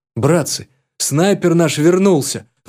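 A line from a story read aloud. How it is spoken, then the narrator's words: Soldier's exclamation. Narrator (Russian): воскликнул боец, что стоял на посту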